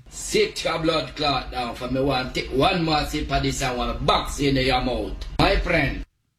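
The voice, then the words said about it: Put-on Jamaican accent. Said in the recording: “That's got to be Jamaica ... The Jamaican accents, when they get going, impossible.”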